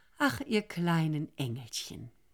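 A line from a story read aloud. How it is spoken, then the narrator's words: Moved sigh. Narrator (German): gerührt seufzte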